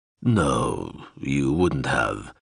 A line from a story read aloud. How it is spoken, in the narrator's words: Zoxal purred